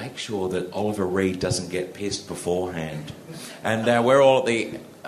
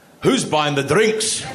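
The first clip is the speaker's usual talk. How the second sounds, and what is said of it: Put-on Scottish accent. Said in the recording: “he suddenly got a Scottish accent.”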